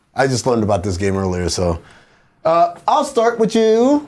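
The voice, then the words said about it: Put-on accent. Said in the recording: “I don't know why I had an accent there.”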